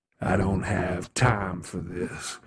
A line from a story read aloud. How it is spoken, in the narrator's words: Kronos snarled